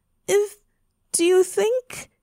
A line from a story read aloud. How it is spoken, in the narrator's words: she said wistfully